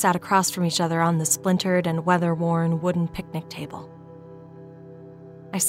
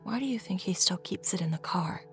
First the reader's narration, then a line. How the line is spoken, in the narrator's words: Mom whispered